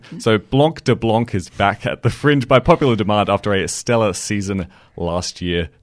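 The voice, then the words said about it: Australian accent. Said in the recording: “I'm just going to sort of go with my Aussie accent”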